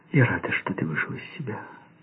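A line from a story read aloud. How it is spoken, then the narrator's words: Tender whisper. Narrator (Russian): ласково прошептала она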